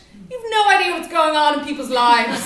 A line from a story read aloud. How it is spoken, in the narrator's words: shout